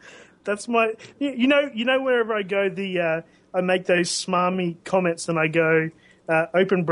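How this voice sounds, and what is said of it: Usual voice. Nothing is said of it.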